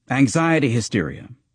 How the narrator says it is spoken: he now snapped in a dismissive tone

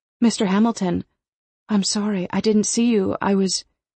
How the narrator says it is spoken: gasp

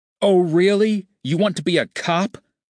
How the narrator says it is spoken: Sonny yelled at John, his voice dripping with sarcasm

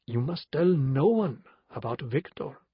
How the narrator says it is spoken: he'd said gently

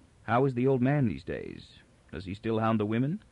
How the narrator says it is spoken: Toran said to his half-uncle softly

